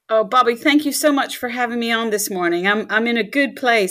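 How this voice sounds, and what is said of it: American Southern accent. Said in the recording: “I'm detecting a USA accent there, probably all the way from Birmingham, Alabama”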